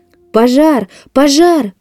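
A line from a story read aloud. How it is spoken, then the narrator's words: Shouting. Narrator (Russian): кричали они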